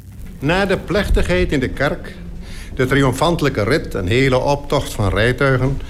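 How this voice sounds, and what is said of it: Elderly man, Dutch East Indies accent. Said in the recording (Dutch): “Johan Fabricius, het is een ouwtje, maar hij kan prachtig praten met een Indisch accent”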